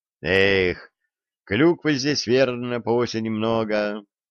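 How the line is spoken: Dreamy sigh. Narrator (Russian): мечтательно вздохнул Середин

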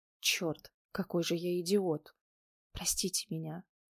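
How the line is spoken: Muffled whisper. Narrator (Russian): прошептал, носом уткнувшись в макушку

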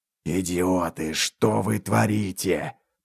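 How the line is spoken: Hiss from behind. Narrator (Russian): послышалось шипение мага за спиной

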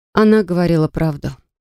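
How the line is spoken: Dry. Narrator (Russian): сухо подтвердила я

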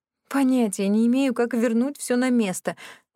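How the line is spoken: Groaning. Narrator (Russian): простонала я

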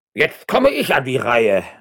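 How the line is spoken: Calling out on entering. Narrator (German): rief der hochgestellte Don Eugenio de Zuniga beim Eintreten

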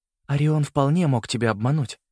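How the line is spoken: Gentle mother. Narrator (Russian): мягко сказала мама

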